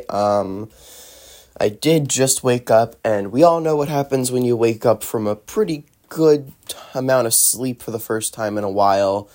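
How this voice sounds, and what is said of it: Deeper, groggy just-woke-up voice. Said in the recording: “Sorry if my voice is a little deeper today ... I now sound like a mummy”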